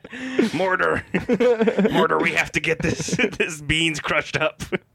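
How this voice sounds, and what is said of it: Cartoon character voice impression. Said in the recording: “my Rick impression from Rick and Morty”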